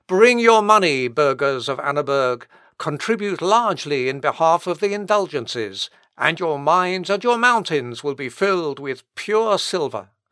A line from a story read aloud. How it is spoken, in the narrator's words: Then, raising his voice anew, the pontifical stentor, who was addressing the inhabitants of a rich mineral district, loudly exclaimed